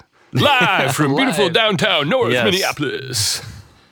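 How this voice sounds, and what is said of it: Radio announcer voice. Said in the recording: “You get a better radio voice.”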